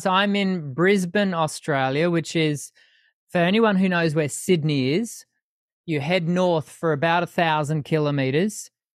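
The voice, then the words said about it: Australian accent. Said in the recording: “we all can hear from your accent that you're located in Australia”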